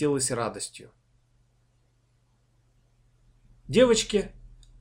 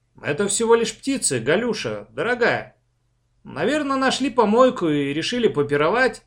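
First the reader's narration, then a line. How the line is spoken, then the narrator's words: Cheerful reassuring shout. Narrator (Russian): успокаивающий, бодро закричал в ответ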